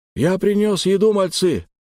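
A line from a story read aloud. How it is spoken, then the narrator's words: Happy mumble. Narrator (Russian): радостно пробубнил Фадор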